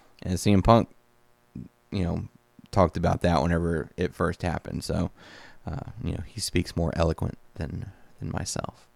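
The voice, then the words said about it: Tired, worn-out voice. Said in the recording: “Sorry, my voice is getting a little tired.”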